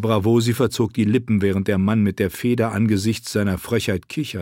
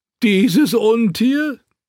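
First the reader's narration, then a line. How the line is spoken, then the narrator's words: Laughing. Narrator (German): Der Bravosi lachte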